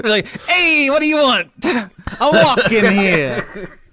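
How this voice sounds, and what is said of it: Put-on Brooklyn accent. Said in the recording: “Maybe go for a Brooklyn accent”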